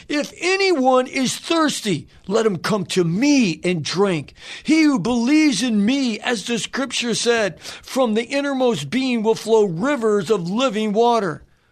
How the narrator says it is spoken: Jesus cried out saying

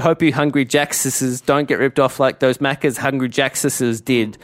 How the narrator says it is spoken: exclaimed Mark

